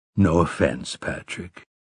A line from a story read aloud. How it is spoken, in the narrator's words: Roland said in a purely conversational voice